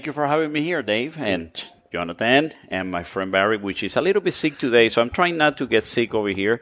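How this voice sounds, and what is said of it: Accent likened to Ricky Ricardo. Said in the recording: “it's not Ricky Ricardo, it's my right. accent,... I tried to change it... You have by far the sexiest voice in the cigar industry.”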